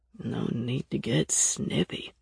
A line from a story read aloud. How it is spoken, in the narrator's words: Broker grumbled